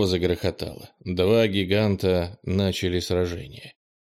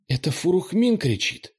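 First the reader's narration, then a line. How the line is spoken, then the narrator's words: Exclamation. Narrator (Russian): воскликнула Ира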